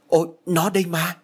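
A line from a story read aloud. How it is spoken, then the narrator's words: Exclamation. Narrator (Vietnamese): Thạnh đã kêu lên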